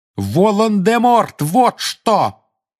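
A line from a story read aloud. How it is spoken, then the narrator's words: Furious shout. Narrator (Russian): яростно крикнул Гарри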